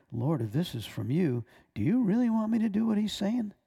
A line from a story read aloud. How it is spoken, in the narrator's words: So I breathed a quick prayer